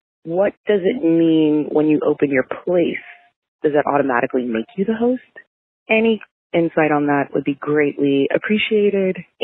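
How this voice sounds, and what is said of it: Whispering. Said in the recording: “apology in advance for whispering because I'm in my cubicle at work”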